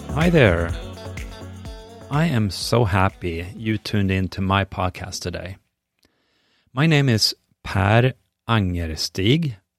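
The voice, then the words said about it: Swedish accent. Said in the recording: “as you might hear, I have a bit of an accent. I'm a native Swede”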